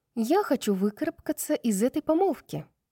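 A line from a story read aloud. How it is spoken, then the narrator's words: Casual female declaration. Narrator (Russian): непринужденным тоном заявила Брайс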